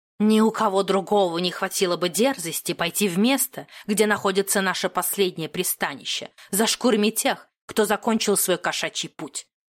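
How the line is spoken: Hissing cat. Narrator (Russian): прошипел кот

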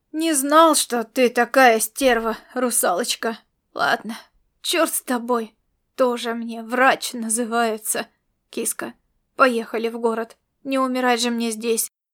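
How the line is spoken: Feigned pained moan. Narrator (Russian): простонал он и сделал вид, что ему совсем плохо

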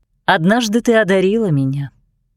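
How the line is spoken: Plain. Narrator (Russian): сказала она

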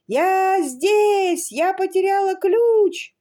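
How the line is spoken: Desperate shout. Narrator (Russian): Люси отчаянно закричала

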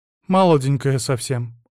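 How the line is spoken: Sad. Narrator (Russian): грустно заметила она

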